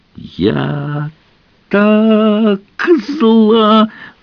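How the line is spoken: Shriek. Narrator (Russian): завизжала

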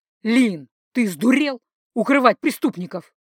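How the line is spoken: Rude growl. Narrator (Russian): Джердан совсем невежливо рыкнул

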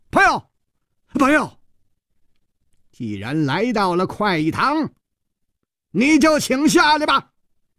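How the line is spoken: Laughter gone, loud shout. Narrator (Chinese): 笑声一下就锁住了，全身上下立刻再没有丝毫的笑意，大声地喊

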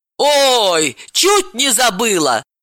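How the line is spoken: Exclaiming. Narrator (Russian): воскликнула Лиза

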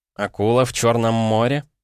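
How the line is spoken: With a snort. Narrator (Russian): Я хмыкнул

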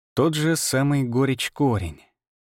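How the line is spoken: Drawling. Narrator (Russian): протянул я

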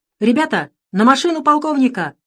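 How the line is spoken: Shouted. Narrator (Russian): закричал он

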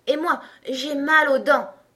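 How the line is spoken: Exclaiming. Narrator (French): s'exclama Blanc Bonnet

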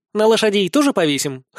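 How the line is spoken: Snorting. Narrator (Russian): хмыкнула Нелли

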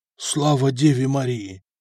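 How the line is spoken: Frightened official's exhale. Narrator (Russian): выдохнул белый, как полотно, чиновник

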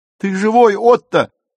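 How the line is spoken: Screaming. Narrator (Russian): завопила Зильке

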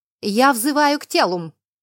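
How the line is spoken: Sharp. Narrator (Russian): резко произнесла я

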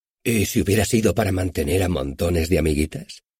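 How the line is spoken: Jokingly suggesting. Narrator (Spanish): sugirió con tono de guasa

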